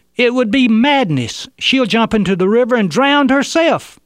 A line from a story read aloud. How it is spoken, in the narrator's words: One of those holding her yelled